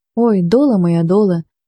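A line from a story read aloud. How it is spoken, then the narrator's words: Muffled anguished moan. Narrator (Ukrainian): майже простогнав Кермелюк, затуливши обличчя руками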